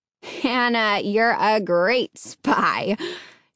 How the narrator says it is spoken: she laughed

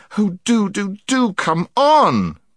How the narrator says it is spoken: begged Jill

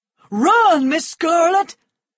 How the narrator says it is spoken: shouted Big Sam

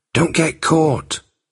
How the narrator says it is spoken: whispered Peterkin

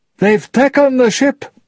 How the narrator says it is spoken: Tai Huang cried

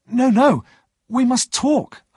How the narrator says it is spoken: I cried

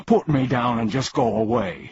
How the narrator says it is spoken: he pleaded

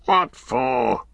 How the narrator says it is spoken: growled Gorbag

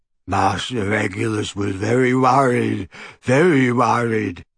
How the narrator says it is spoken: croaked Creature

